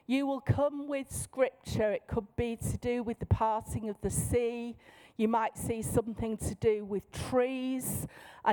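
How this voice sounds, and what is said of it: Manchester English accent. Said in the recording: “in my normal voice, in my accent. I'm from Manchester.”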